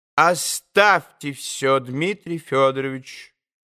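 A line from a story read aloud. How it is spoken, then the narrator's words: Decisive interrupting tone. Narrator (Russian): Самым решительным тоном перебила госпожа Хохлакова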